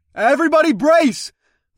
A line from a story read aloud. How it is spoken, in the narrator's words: I called out